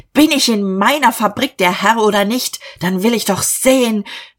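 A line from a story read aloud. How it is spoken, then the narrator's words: Angry shout. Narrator (German): Er schrie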